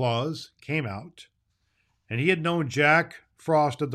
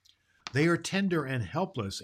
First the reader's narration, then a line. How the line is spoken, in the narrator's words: answered Claus